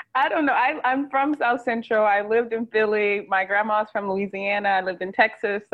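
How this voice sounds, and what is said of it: Mixed American regional accent. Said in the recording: “I got to guess this accent because the first thing I just heard you say is on. What is on coming from?”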